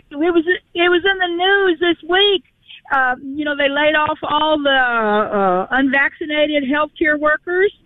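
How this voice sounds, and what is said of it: Southern US accent. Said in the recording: “You sound like you weren't from Rhode Island originally, though. That's a southern accent I hear.”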